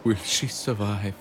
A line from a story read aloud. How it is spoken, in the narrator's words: Gino sighed deeply through his nose